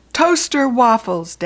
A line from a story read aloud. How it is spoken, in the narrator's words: Dad yelled louder